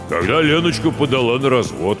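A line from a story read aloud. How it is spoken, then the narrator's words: Deep voice. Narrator (Russian): пробасил Гоша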